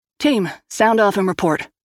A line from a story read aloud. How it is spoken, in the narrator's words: barked